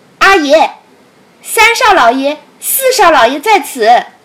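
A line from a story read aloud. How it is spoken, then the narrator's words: Calling out. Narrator (Chinese): 邹三走去叫道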